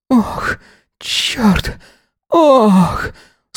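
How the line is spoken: Groaning. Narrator (Russian): стонал

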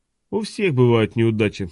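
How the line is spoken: Calm. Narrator (Russian): спокойно сказал Хок

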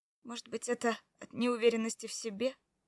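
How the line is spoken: Sighing. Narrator (Russian): Я вздохнула

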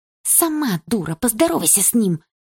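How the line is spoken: Hissed retort. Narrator (Russian): прошипела в ответ Дилара

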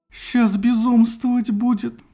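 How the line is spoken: Exclaiming. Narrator (Russian): воскликнула Пенелопа и зарыдала

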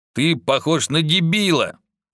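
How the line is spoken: Scornful snort. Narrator (Russian): фыркнул Алукард

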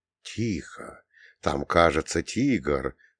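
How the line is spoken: Smiling whisper. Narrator (Russian): прошептал я, улыбаясь

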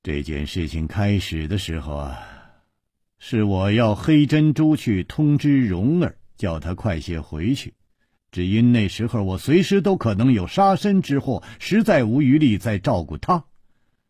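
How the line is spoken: Sighing. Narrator (Chinese): 楚留香叹了一口气

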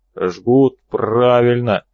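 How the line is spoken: Agreeing. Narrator (Russian): согласился Хрипатый

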